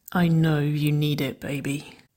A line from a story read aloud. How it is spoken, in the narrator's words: she murmured, the slow burr of her voice